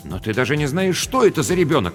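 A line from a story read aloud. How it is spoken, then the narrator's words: Exclamation. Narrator (Russian): воскликнул Рубен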